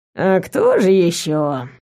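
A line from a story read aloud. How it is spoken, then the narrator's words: Lazy, feigned sleepy. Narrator (Russian): Лениво ответил Вейр, старательно делая вид, что продолжает спать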